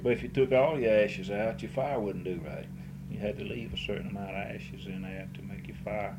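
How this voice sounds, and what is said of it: Speaks with a regional brogue. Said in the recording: “You're trying to pick up my brogue, ain't you?”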